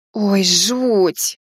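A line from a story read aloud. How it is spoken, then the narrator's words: Snorted. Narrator (Russian): фыркнула Алиса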